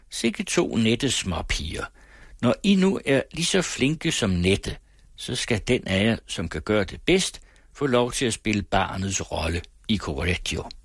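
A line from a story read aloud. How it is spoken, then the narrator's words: Kindly, wry older man. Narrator (Danish): En lille tyk mand med det godmodige, men satiriske smil, kom os venligt i møde, sagde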